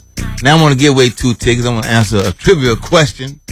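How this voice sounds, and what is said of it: Polished radio announcer voice. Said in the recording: “radio voice ... It's real good. I like the radio voice.”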